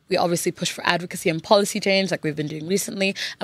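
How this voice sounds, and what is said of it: International student accent. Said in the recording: “your accent, where's it from? ... I call it the international student accent.”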